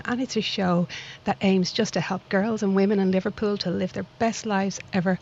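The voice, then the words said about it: Dublin Irish accent. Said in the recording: “my little accent doesn't come from this lovely town in Liverpool, but I like to think it comes from an equally lovely town called Dublin”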